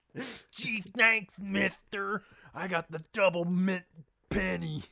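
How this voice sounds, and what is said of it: Imitates another person's voice. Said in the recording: “You really do do a good impression of him. That was good.”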